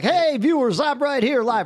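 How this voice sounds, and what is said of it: Mock TV news-anchor voice. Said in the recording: “I'm not going to have a TV voice ... Radio voice?”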